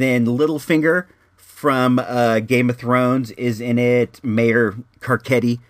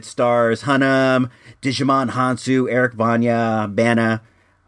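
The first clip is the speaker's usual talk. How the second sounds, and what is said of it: Names said in weird accent. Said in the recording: “Why did I say it with a weird accent?”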